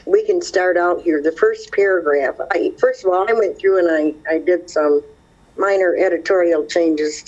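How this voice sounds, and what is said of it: Hoarse, croaky voice. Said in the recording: “I have a frog in my throat that just doesn't want to go away.”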